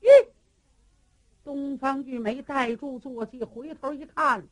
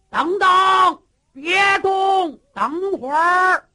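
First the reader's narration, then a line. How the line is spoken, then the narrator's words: Shout from behind. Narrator (Chinese): 就听后边喊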